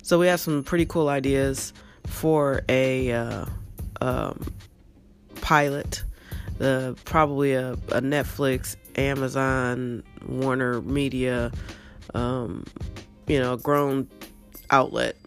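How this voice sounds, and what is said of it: Hoarse, fading voice. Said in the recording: “my voice is going away. Got a cough.”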